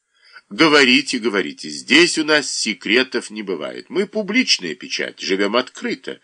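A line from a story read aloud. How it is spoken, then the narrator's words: Cheerful reply. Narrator (Russian): весело отозвался Федулеев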